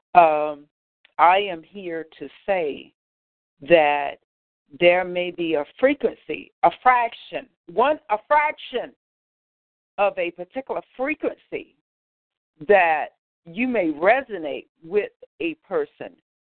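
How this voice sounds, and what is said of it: Dry, parched voice. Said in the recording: “my voice is kind of parched.”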